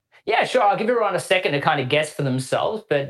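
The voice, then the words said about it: Australian accent. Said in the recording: “it doesn't quite sound like a U.S. accent ... what's the accent? ... maybe Aussie or Kiwi ... Melbourne, Australia”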